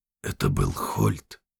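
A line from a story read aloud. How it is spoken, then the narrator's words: Quiet. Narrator (Russian): тихо произнес Геральт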